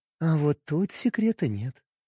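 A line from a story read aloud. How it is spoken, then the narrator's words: Purring. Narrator (Russian): промурлыкала моя Астакарай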